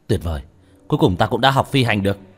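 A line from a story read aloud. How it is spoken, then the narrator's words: Excited shout. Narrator (Vietnamese): Tần Hạo lúc này vô cùng hưng phấn, hắn hét lên một tiếng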